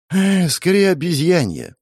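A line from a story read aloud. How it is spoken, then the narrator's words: Resigned sigh. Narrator (Russian): вздохнул я, понимая, к чему это все идет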